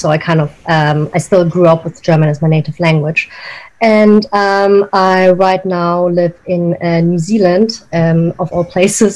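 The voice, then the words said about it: German accent in English. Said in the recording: “when you hear my accent, you probably, you know, guess where I'm from ... I was born and raised in Germany”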